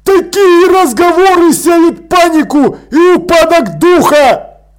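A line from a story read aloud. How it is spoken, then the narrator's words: Yelling. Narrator (Russian): заорал капрал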